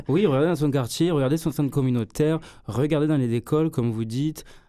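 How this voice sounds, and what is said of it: Southern French accent. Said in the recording (French): “votre accent du Sud”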